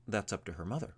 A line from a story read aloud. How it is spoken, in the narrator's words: said Ivar